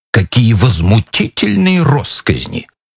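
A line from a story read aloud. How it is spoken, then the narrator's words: Grumbling. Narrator (Russian): остальные ворчали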